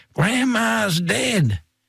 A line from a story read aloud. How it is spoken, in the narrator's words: Thomas started screaming